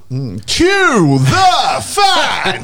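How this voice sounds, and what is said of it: Theatrical talent-show announcer voice. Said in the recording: “I'll probably go along the Britain's Got Talent way. ... Of the theatrical. ... Good impression.”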